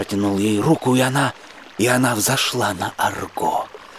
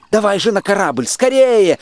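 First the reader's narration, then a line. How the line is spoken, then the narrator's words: Group shouting. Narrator (Russian): закричали мы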